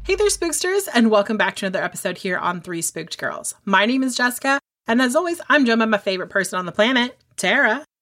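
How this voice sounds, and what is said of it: Serious formal podcast-host voice. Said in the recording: “you said that so seriously ... Sometimes I put my podcast voice on”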